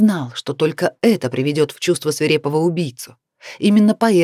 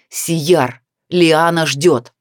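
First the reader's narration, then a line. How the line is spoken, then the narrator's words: Barked, snow leopard. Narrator (Russian): барс рявкнул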